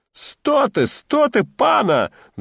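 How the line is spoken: Roared. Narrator (Russian): взревел Акимка

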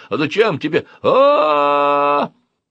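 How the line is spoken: Screaming in pain. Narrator (Russian): Он заорал, как не знаю кто, когда я прищемил ему пальцы дверью

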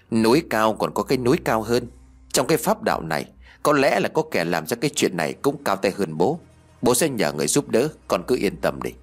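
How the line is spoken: Sighing. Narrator (Vietnamese): Ông Âu liền thở dài

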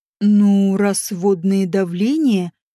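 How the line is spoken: Drawling. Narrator (Russian): протянул он

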